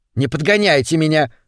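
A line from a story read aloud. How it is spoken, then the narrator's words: Snapping retort. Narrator (Russian): огрызнулась ее спутница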